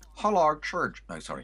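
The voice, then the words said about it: Imitates another person's voice. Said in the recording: “That's actually a very good impersonation of Bobby D”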